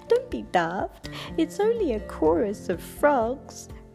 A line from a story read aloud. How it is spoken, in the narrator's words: Night Monkey laughed and said